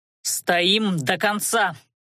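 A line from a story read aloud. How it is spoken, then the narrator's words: Barked command. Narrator (Russian): рявкнул Адар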